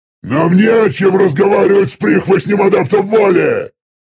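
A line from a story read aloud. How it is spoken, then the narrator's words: Shouted. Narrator (Russian): выкрикнул самый крупный из оставшихся в живых мириотов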